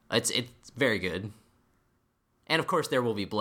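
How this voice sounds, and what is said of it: Usual voice. Nothing is said of it.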